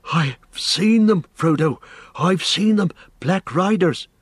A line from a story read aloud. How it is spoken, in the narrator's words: he gasped